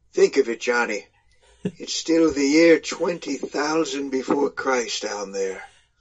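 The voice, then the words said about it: Put-on accent for a quoted line. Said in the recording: “The best part of that was the accent you just put on. It was awesome.”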